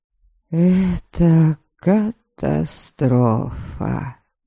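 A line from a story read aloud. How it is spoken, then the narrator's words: Sad drawl. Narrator (Russian): Печально протянула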